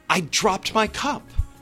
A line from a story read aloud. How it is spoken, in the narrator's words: Charles Reuben exclaimed